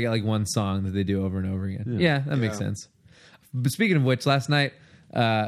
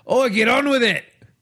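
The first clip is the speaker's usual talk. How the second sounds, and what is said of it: Bad Crocodile Dundee Australian accent. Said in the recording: “movie accent Australian ... it sounded like someone doing a bad Crocodile Dundee”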